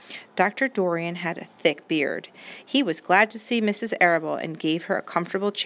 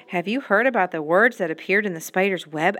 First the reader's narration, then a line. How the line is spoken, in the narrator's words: asked Mrs